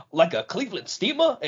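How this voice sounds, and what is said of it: Imitates another person's voice. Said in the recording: “your Taz impression”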